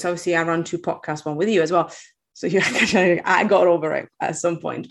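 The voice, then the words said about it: Italian accent with British cadence. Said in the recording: “I'm Italian. I have a weird accent... I pick up a bit of the British cadence”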